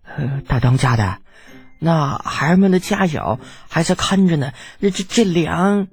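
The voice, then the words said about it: Quiet, hushed voice. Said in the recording (Chinese): “小声提醒他”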